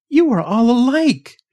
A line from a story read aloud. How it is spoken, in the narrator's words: she cried